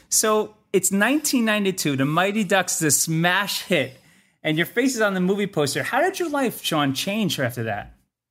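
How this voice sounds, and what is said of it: New Jersey accent. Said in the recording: “this is a Jersey guy I'm talking to ... you still have it in your voice, and I can still hear it ... a New Jersey accent”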